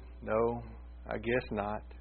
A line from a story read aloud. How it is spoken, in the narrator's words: The Lord sighed and said